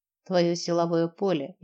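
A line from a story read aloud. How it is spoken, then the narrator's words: Snort. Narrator (Russian): я хмыкнула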